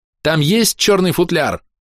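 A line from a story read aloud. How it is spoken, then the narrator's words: Shouting. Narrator (Russian): прокричала Биара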